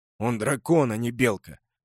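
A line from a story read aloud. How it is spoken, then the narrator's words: Old rider snorting. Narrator (Russian): фыркнул старый всадник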